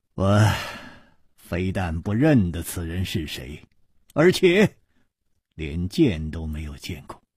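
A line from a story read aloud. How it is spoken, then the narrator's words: Sighing. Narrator (Chinese): 楚留香叹道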